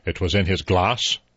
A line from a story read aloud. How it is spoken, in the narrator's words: The judge said sharply